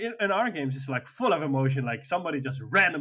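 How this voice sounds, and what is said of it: Usual voice. Nothing is said of it.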